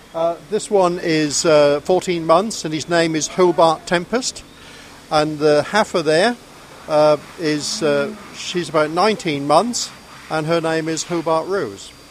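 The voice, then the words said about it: Norfolk English accent. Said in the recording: “you sound like you are from Norfolk ... you can't tell that from my accent, can you?”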